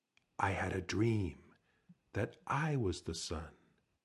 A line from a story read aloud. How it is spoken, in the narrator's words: Snake whispered